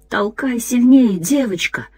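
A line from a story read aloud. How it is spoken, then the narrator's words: Whispered. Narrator (Russian): шептал другой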